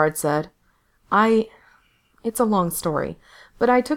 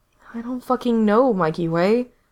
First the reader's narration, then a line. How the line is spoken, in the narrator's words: Gerard said wearily